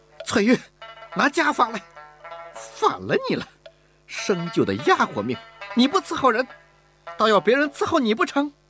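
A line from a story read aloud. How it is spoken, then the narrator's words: Exasperated shout. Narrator (Chinese): 忍无可忍地喊道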